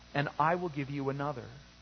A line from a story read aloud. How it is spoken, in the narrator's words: said gently